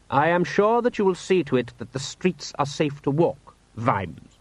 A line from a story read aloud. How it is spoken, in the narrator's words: said sharply